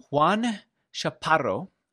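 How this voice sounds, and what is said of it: Put-on Spanish accent. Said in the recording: “I'm doing it in my best Spanish accent.”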